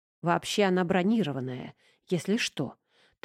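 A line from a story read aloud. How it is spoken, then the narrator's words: Whispered. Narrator (Russian): также шепотом ответил ему Василий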